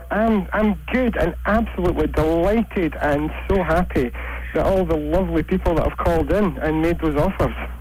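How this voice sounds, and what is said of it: Scottish accent. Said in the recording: “lovely Scottish accent”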